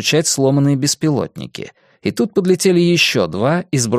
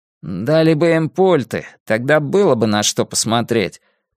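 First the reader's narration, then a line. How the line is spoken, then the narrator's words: Less angry grumble. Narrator (Russian): проворчал Урбан уже не так сердито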